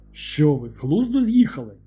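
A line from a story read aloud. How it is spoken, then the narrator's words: Exclaimed, laughing loudly. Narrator (Ukrainian): Вигукнув Білінгем і зареготав на все горло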